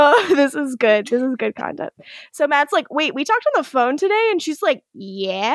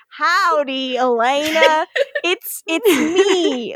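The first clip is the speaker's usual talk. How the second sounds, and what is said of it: Forced, exaggerated American accent. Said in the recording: “doing a very forced American accent”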